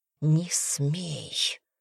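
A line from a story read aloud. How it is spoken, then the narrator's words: Hissing. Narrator (Russian): прошипела она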